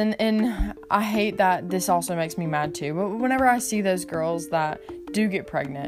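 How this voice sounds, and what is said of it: Usual voice. Nothing is said of it.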